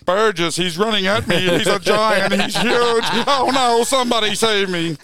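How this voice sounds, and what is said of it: Poor imitation of a sports commentator. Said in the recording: “That's the worst Ray Warren impersonation. ... It started out pretty good.”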